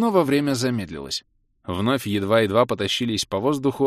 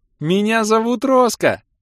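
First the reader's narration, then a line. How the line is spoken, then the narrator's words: Joyful child's shout. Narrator (Russian): радостно закричала моя дочь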